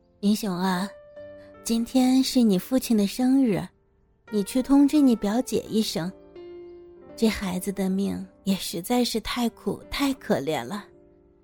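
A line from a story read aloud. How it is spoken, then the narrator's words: Soft. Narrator (Chinese): 她轻声的对着明雄说道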